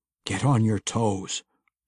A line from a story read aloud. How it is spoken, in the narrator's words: Brunner whispered to them both